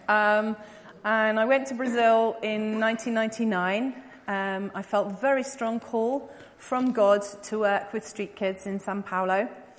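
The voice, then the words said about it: English accent. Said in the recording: “I was obviously born in England, you can tell that by my accent”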